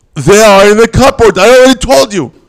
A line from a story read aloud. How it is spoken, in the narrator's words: she yells back even louder